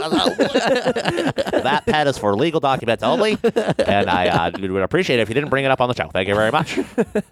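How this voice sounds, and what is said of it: Slightly low, exaggerated imitation of another's voice. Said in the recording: “your impersonation sounds exactly what you just kind of sounded like ... was a little low ... I really didn't change my voice much ... You're doing the Dr. Frank voice ... it sounds exactly like BWK's, but slightly like mine, an exaggerated mine”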